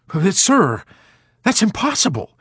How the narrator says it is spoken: blurted out

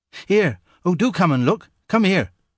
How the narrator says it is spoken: cried Ivy, as if she were afraid her discovery would run away unless the others attended to it quickly

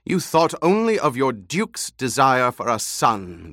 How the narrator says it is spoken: the old woman snapped

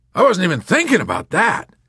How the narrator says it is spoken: cried the colonel

